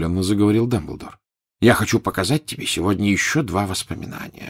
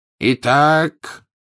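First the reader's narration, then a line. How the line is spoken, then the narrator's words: Ringing voice, continuing. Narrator (Russian): звенящим голосом продолжал Дамблдор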